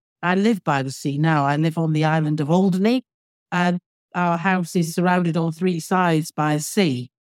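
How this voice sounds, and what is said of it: Manchester English accent. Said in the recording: “based around Manchester because that's where I was born and brought up, as you can probably tell from my accent.”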